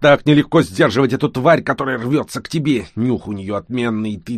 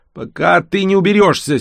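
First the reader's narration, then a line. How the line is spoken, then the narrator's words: Angry grumble. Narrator (Russian): сердито буркнул толстяк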